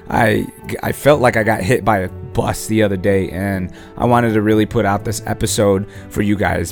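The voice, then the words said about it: Raspy voice. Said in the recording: “Excuse my raspy voice.”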